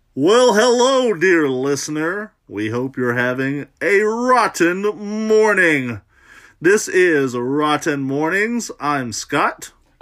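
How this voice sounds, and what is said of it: Exaggerated announcer voice. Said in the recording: “Stop talking like that. You are annoying the hell out of me. ... This is my announcer voice.”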